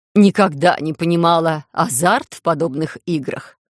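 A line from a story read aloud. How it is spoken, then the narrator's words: Skeptical snort. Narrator (Russian): скептично фыркнула Александрин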